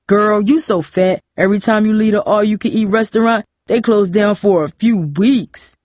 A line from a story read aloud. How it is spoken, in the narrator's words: Cooper said, laughing at his own joke